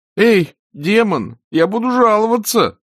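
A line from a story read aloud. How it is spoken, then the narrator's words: Groaning. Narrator (Russian): простонал Эрик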